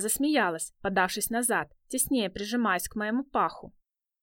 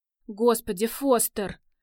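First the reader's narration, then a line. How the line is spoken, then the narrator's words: Moaning. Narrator (Russian): простонала она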